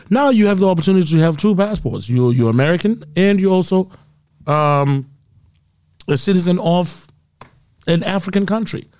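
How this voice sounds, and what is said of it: Zimbabwean accent with slight British tinge. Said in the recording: “am I hearing a Zimbabwe accent, or I'm hearing a British accent? ... I hear a little Brit.”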